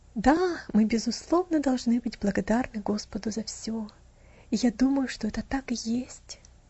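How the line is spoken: Quiet, soft. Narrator (Russian): тихонько проговорила жена

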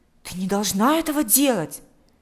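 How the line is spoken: Exclaimed. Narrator (Russian): воскликнул Миша

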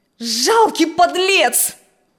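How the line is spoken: Loud shout. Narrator (Russian): крикнул он громко

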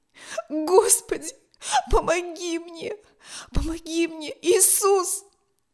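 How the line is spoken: Sobbing, trembling with fear. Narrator (Russian): Дрожа от страха, всхлипывал он

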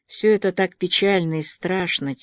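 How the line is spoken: Quiet reply. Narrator (Russian): тихо ответила Аня

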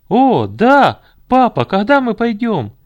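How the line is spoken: Eager boys shouting. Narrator (Russian): кричали мальчишки, которые были готовы сейчас же бежать туда

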